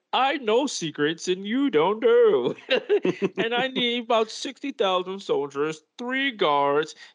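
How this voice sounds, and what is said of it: Imitates another person's voice. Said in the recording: “a good impression”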